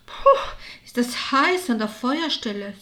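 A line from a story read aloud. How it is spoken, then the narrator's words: Sighing to herself. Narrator (German): seufzte vor sich hin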